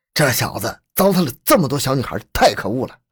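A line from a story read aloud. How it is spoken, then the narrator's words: Angry. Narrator (Chinese): 居民马栓荣愤怒地说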